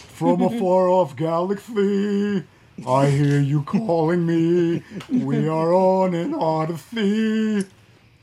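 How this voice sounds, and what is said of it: Deep singing voice with lisp. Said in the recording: “That's my deep voice. I love it. That's my deep lisp. ... Falsetto deep, he's hitting it all.”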